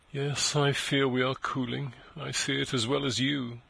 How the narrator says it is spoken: she sighed mournfully

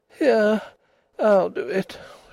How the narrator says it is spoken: she said wearily

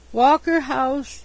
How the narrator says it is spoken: he moaned

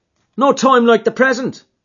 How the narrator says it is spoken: cried McMurdo

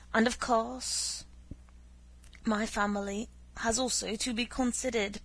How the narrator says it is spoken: Prince Vasily went on, testily

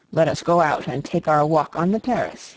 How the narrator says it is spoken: he said with a short laugh

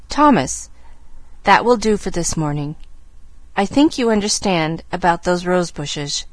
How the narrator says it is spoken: she said stiffly

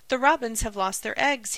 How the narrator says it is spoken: he cried excitedly

